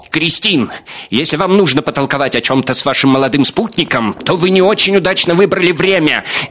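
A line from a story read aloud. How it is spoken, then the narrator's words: Shrill shout. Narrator (Russian): несколько визгливо закричал Беневский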